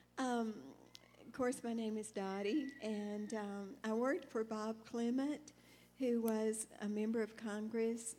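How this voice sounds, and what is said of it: Soft, quiet speaking voice. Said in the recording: “my voice is soft, so I hope you can hear me okay.”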